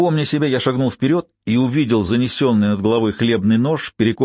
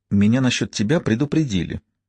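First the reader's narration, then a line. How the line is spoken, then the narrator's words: Barely audible reply. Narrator (Russian): еле слышно ответила она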